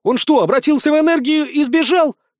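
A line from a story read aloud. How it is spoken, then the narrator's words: Yelling. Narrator (Russian): заорал я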